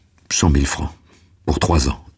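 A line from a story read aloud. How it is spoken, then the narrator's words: Plain. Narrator (French): dit Maxime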